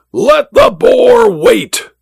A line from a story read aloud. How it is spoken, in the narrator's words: the Duke roared